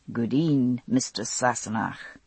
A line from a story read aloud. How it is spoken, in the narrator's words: a softly mocking